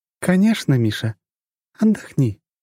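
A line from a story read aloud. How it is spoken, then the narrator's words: Tender, gentle. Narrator (Russian): ласково сказала она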